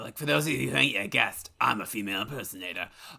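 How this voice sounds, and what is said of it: Impression of a raspy celebrity voice. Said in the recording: “the Fierstein impression needs some work ... You sound like someone is strangling an alien child.”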